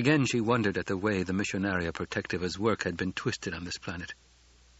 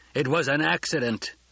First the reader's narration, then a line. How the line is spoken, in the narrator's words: Jameis roared